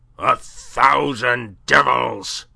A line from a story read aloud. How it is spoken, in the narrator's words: he roared